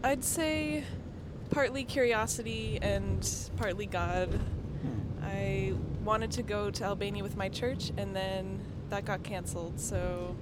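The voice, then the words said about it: American accent. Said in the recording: “you've got a wonderful American accent. ... it's a USA accent”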